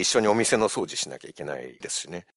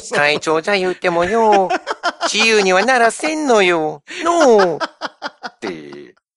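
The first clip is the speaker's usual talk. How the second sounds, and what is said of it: Imitates a gangster film character's voice. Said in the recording (Japanese): “仁義なき戦いの山森会長のモノマネをさせていただきます”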